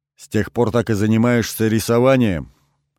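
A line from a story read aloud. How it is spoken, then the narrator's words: Plain. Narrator (Russian): спросил я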